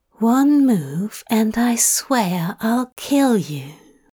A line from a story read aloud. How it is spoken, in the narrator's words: Aziraphale breathed